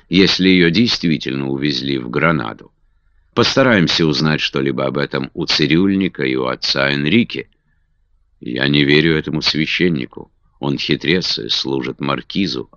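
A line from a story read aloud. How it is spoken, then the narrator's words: Calmer agreement. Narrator (Russian): уже более спокойно согласился Кастел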